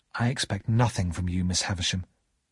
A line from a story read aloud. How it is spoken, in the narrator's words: I said quietly